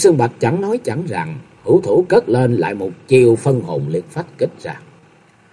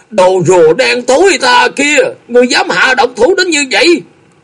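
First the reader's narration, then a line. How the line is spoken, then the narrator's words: Cracked-voice loud shout. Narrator (Vietnamese): lạc giọng hét lớn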